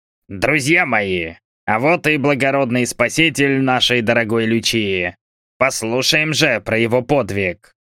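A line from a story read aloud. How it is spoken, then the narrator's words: Loud. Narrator (Russian): сказал громко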